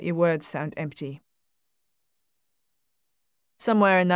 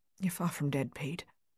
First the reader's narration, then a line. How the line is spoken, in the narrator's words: You mutter